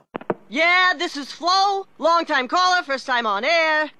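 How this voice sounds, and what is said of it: Sports talk radio caller voice. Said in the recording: “this is my impression of someone calling into Sports Talk Radio.”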